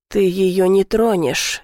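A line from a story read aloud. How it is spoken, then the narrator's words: Calm. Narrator (Russian): спокойно говорит Гриша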